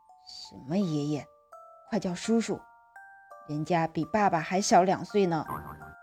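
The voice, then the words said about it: Low muttering voice. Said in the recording (Chinese): “小声地嘀咕着”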